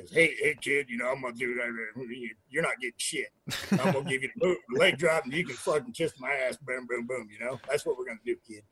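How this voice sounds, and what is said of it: Imitates another person's voice. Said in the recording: “Hogan impression”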